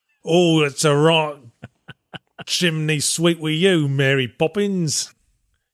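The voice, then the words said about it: Put-on South London accent. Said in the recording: “a lot of accents from the South London town”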